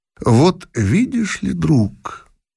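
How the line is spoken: Calm, after a pause. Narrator (Russian): выждав мгновение, спокойно промолвил император

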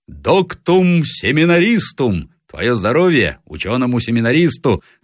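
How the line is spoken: Shouted toast. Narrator (Russian): закричал Зарецкий

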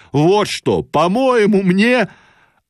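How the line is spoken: Sudden shouting. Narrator (Russian): вдруг кричал

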